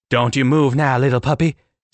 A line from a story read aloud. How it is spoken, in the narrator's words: Sage snapped nastily